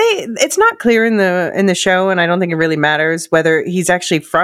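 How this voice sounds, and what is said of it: Usual voice. Nothing is said of it.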